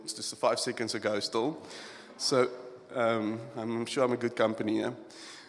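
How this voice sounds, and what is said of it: Creaky, tearful voice. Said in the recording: “my voice is a little creaky because I'm holding back tears”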